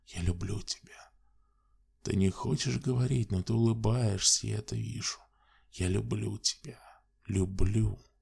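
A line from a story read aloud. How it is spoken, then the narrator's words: Whisper. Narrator (Russian): шептал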